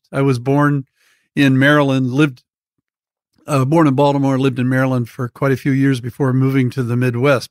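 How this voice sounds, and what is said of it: East Coast American accent. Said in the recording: “you must be an East Coast kind of guy”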